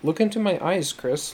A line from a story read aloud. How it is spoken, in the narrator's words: Laura instructed gently